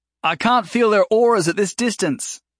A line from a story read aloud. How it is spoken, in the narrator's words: Jason called out